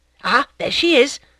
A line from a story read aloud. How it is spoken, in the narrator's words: exclaimed Madame Tuvache